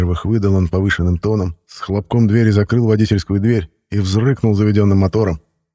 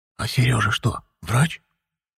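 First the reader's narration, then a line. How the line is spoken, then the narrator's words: Old woman whispering. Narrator (Russian): шепнула бабка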